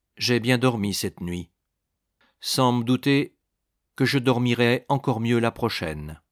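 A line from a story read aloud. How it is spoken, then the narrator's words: Cold. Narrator (French): dit Claude froidement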